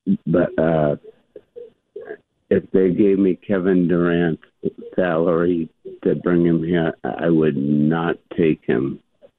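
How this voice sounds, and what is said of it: Weak, damaged speaking voice. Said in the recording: “sorry about my voice. ... I don't have my voice back.”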